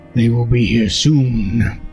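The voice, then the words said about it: Deep voice from a woman. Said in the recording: “This voice, this deep voice coming out of this live woman is interesting.”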